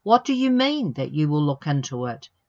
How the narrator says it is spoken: he asked

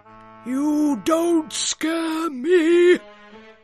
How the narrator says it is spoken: he bellowed at Daddy Goat Gruff

